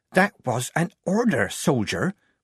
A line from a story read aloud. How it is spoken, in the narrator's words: Polly whispered in her ear